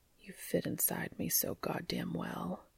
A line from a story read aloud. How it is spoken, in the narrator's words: whispered